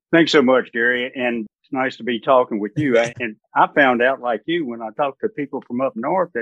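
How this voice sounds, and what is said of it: Mild non-northern American accent. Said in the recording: “a little bit of an accent more like mine than all these Northeastern Chicago guys”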